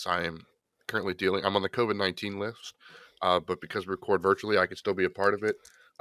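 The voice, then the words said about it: Raspy, hoarse voice. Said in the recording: “You can tell by my raspy voice.”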